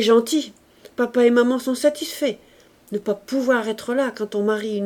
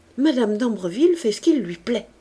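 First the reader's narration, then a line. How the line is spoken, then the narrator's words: Young man said dryly. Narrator (French): dit sèchement le jeune homme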